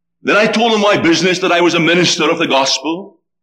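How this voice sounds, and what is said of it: Scottish accent. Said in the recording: “what kind of an accent is this? ... I suppose it's a Scottish accent”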